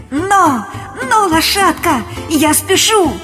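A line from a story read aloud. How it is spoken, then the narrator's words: Joyful exclamation. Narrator (Russian): И радостно воскликнул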